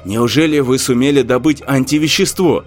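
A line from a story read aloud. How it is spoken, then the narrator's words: Plain. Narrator (Russian): спросил Корнев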